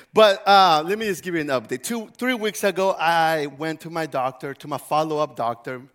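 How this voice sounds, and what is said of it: Weak, fading sick voice. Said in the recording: “I'm kind of sick. So if you hear my voice leaving me, that's because my voice is gone.”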